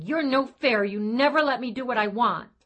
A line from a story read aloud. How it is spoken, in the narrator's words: Kelsey cried and kicked him, yelling